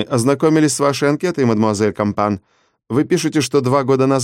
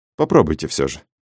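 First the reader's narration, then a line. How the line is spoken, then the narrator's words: Gentle request. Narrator (Russian): мягко попросил отборщик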